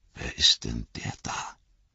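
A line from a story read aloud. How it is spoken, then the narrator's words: Whispering. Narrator (German): flüsterte Frodo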